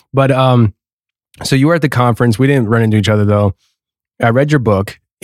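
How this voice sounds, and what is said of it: Hoarse, strained voice. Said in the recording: “I'm already losing my voice. I have throat lozenges in my mouth ... I'm going to lose my voice”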